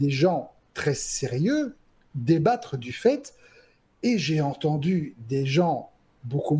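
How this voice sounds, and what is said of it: Usual voice. Nothing is said of it.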